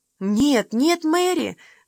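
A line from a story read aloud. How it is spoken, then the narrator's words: Soothing exclamation. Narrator (Russian): воскликнула Уна, пытаясь успокоить ее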